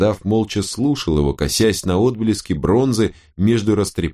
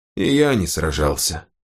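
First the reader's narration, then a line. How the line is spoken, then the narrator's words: Old man sighing. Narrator (Russian): вздохнул старик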